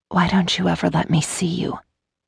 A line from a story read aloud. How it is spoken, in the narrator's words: she said in a much huskier tone than she'd intended